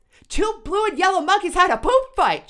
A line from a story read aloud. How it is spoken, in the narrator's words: shouted the Donnelly kids with glee